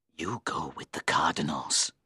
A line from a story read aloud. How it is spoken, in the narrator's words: hissed